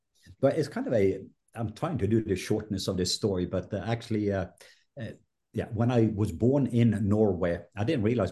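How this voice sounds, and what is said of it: Norwegian accent. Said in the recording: “your accent ... you're a Viking Norwegian”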